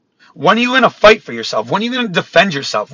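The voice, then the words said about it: Yelling passionately. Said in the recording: “sorry for yelling. ... I'm just really passionate about this”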